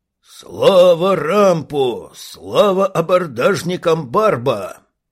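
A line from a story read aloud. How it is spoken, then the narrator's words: Thunderous unison roar. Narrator (Russian): взревели в один гремящий голос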